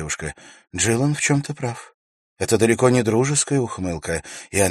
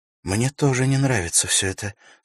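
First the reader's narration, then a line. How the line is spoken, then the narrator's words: Worried tone. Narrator (Russian): сказала Ивенлин обеспокоенным тоном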